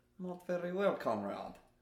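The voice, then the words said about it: Poor put-on Russian accent. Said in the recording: “Can you do a Russian accent? ... I told you it was bad.”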